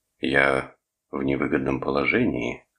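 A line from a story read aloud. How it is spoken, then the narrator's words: Level voice. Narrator (Russian): ровным голосом заявил Торн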